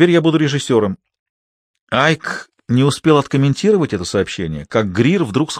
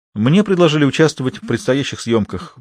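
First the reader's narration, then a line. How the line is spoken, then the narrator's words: Matter-of-fact tone. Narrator (Russian): будничным голосом сообщила Алиса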